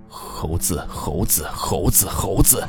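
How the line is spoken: Mumbling. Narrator (Chinese): 他似乎正在嘟囔着

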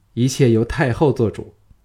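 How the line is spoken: Smiling. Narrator (Chinese): 小盘笑向朱姬说

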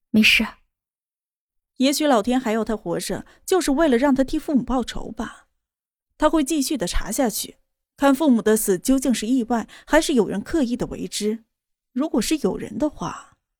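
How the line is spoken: Faint smile. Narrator (Chinese): 莫渊熙淡淡一笑

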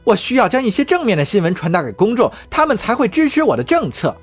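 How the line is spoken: Shouting. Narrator (Chinese): 卡林喊道

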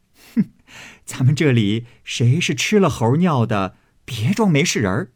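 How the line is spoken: Laughing. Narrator (Chinese): 尤氏、娄氏都笑向李纨道

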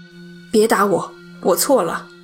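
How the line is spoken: Startled, near outcry. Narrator (Chinese): 唐尼打了个激灵，险些叫出声

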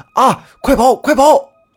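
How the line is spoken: Said while running. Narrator (Chinese): 他一边说，一边就迅速的往村子的方向跑

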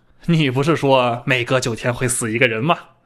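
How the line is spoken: Laughing. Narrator (Chinese): 安花树笑着说

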